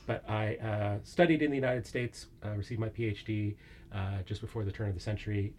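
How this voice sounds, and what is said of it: American accent. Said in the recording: “as my accent betokens, I'm from the very far west of Scotland, the United States”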